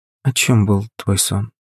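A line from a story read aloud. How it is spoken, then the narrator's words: Calm question. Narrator (Russian): уже спокойным тоном спросила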